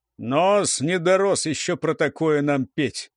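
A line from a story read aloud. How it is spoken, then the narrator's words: Booming drone. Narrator (Russian): прогудел Гуляй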